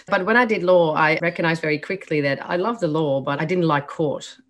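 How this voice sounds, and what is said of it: Dutch accent. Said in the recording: “As you can hear by my accent, I was born in the Netherlands. So that's where that accent ... comes from”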